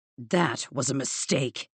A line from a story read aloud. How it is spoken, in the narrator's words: he growled